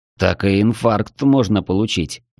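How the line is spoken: Grumbled. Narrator (Russian): проворчал

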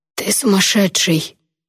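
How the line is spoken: Hoarse mumble. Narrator (Russian): хрипло промямлил Алит

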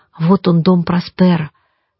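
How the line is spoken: Quiet. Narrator (Russian): тихонько сказал Петя

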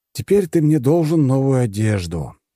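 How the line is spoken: Weary sigh. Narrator (Russian): устало вздохнул я

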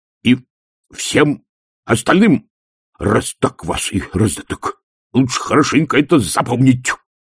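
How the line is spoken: Barked warning. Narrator (Russian): рявкнул Колон

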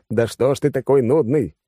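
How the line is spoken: Irritated. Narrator (Russian): раздраженно сказал

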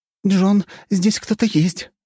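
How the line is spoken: Agitated. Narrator (Russian): взволнованно сказала Алисия

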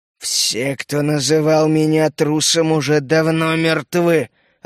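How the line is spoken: Growling. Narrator (Russian): рыкнул Боровик

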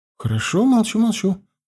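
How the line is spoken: Mumble. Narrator (Russian): пробормотала она

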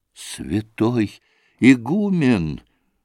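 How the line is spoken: Sobbing. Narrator (Russian): зарыдал Басманов

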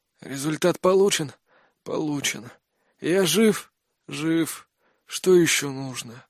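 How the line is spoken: Suppressing pained hoarseness. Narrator (Russian): спросил я, стараясь не хрипеть от боли

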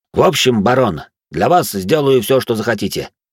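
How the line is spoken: Confident voice. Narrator (Russian): произнес он уверенным голосом

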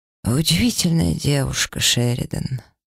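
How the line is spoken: Hoarse male voice. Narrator (Russian): хрипло произнес мужчина

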